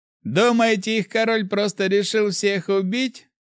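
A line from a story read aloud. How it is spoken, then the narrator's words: Chuckling police chief. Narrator (Russian): хохотнул начальник полиции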